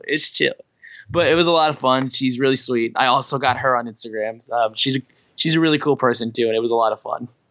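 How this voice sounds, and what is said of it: Hoarse, strained voice. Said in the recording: “my voice is still shot from the cruise, as you can tell. I'm holding it together as best I can.”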